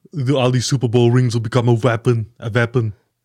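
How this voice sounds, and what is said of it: Imitates another person's voice. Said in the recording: “you got to say that with a Schwarzenegger accent ... You do a very good impersonation of Arnold Schwarzenegger”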